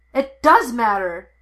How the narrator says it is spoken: Anakin yelled

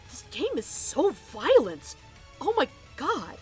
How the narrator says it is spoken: Wade gasped

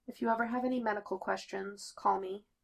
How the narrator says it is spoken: Claire says quietly

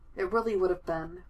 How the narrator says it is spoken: Foggy sighs

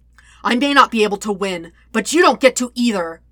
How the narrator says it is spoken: Zuko shouts

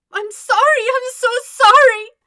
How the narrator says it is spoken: she wails into his chest

